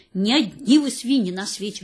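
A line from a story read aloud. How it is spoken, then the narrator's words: Growled. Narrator (Russian): рычал он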